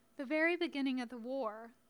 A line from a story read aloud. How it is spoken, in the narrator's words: Lilith said